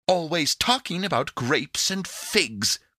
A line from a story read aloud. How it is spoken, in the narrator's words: cried Pandora pettishly